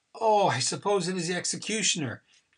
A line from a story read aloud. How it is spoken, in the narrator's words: Haggart immediately exclaimed in a hurried tone